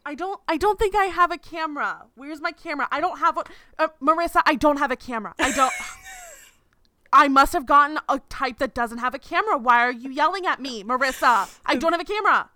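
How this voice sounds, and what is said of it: Impression of a confused mother. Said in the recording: “you looked like a parent that didn't understand like, FaceTime ... Like my mom impression ... Mom trying to use FaceTime for the first time”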